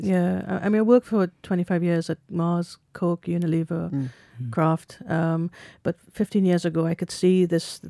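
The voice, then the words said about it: Welsh-sounding Caribbean accent. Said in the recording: “this Welsh type of accent. I grew up in the Caribbean. ... A Welsh Caribbean accent. ... Yeah, Welsh Caribbean.”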